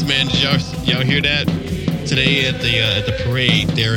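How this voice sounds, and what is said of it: Usual voice. Nothing is said of it.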